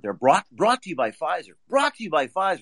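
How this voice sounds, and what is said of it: Imitates a TV commercial announcer voice. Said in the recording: “my imitation of the commercials that you see, you've seen on Good Morning America and Jake Tapper Show”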